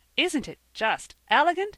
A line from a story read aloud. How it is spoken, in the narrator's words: said Percy, in the most pleased tone